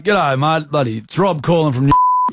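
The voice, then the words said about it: Put-on broad rural Australian accent. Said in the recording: “what kind of accent are you going to do ... I'll give it a bit more ... bush ... Sound like Farmer Boy ... a bit more bush”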